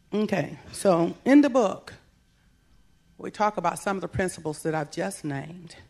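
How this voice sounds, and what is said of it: Slightly hoarse voice. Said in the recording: “my voice is a little hoarse too. I've been going in and out of too many climates and time zones.”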